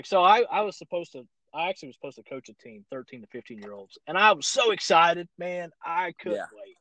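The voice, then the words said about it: Rural hillbilly accent. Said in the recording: “talks like a hillbilly”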